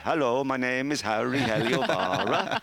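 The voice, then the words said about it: Put-on Finnish accent. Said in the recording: “Why'd you have to say it in that? ... Is that your Finnish impression? ... They all speak like that in Finland.”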